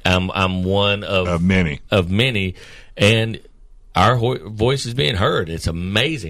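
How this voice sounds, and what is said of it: Choked up, emotional voice. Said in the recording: “I'm getting choked up”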